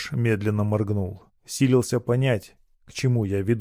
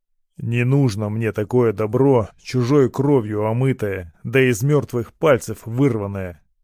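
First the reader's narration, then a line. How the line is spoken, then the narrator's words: Grumbling. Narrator (Russian): проворчал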